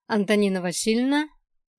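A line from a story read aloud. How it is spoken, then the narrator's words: Cheerful declaration. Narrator (Russian): бодро заявила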